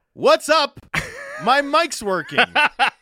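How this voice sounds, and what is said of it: Imitates a podcast host's opener. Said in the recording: “my impression of Jamie Dodd doing a Canucks Talk opener”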